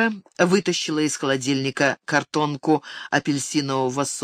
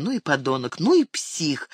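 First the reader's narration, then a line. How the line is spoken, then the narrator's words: Indignant exclamation. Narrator (Russian): восклицала она, возмущенно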